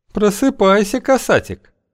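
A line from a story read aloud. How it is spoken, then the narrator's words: Languid sing-song. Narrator (Russian): томным голосом пропела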